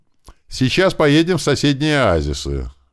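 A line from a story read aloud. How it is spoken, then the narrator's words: Loud. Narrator (Russian): громко сказал нам колобок из рикши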